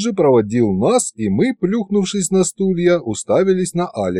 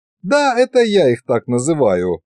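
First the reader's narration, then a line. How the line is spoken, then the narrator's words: Laughing king. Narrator (Russian): засмеялся эльфийский король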